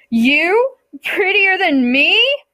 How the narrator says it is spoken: Persephone boomed

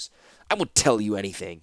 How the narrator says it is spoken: spat Taunus

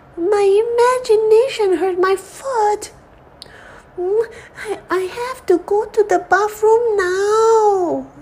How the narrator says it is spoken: Sandy cried

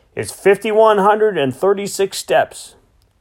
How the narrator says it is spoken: I shouted

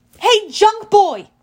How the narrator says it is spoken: I yelled

